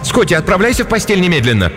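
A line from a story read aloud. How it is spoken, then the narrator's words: Shouted again. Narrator (Russian): Кристин в 3-й раз крикнула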